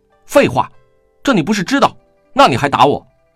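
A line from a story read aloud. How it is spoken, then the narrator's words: Furious. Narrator (Chinese): 金陵大怒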